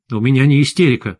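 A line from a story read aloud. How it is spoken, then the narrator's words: Angry. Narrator (Russian): зло сказал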